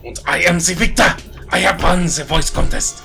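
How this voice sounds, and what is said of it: Put-on German accent. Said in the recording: “just really wanted to do a podcast in a German accent.”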